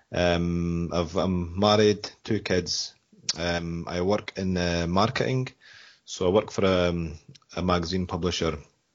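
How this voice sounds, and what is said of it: Scottish accent. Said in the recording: “I'm from Scotland, as you can probably tell by the accent.”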